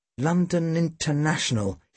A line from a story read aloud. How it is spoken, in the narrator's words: he muttered